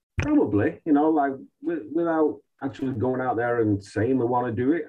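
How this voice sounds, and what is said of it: Manchester English accent. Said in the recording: “you have the same accent you're from manchester”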